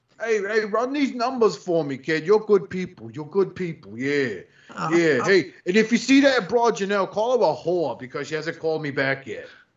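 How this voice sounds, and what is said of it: Bad put-on New York accent. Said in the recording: “Those are the worst New York accents I've ever heard, by the way. ... Those are Jersey.”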